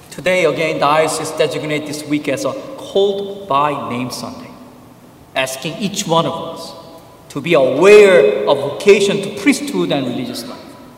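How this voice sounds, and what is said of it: Korean accent. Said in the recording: “your suffering continues with its Korean accent priest now”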